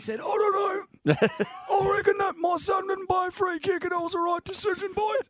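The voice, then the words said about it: Imitates another person's voice. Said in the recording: “the Terry Wallace impersonation ... pretty good”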